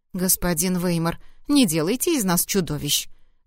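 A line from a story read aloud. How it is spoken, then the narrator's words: Indignant snort. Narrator (Russian): Возмущенно фыркнул Гардон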